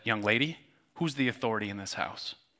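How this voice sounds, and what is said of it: Serious, stern dad voice. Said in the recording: “I got my serious dad voice.”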